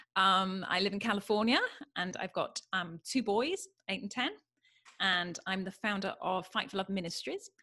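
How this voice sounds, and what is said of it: British accent. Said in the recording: “I'm British. That's the funny accent.”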